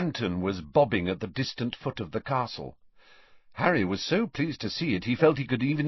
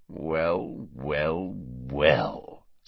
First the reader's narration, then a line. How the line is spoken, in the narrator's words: sneered Snape